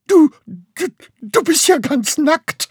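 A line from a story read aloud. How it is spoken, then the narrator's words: Stammered. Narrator (German): stammelte Graugans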